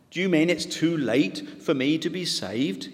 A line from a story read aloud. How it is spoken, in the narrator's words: he asked